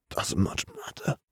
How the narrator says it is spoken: Sirius whispered

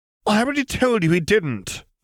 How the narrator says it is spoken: Summerbee interjected hotly

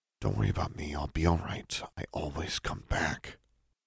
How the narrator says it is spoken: murmured

